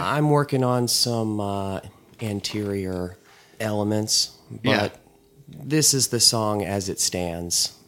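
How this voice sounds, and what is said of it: Slightly hoarse voice. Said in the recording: “my voice is a little bit hoarse today.”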